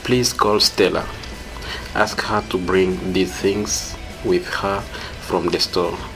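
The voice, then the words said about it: Swahili-accented English. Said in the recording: “a native speaker of Swahili from the Congo”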